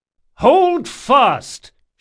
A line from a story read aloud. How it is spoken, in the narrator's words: shouted Locke